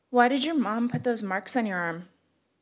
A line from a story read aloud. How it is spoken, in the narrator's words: the girl asked finally, almost hesitantly